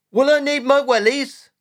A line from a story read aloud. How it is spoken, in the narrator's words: young Jack yelling to his dad